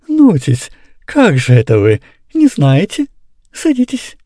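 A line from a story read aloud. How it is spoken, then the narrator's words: Sweet voice. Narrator (Russian): Назар Назарыч сладким голосом говорил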